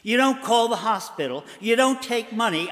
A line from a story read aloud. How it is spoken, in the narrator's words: snapped in disbelief